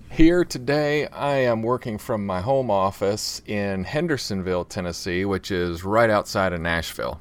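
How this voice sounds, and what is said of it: Tennessee accent. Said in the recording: “if you couldn't tell by the accent”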